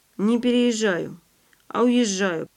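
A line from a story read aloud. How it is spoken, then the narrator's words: Grumbled. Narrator (Russian): пробурчал Андрей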